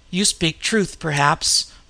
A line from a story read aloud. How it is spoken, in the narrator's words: muttered Conan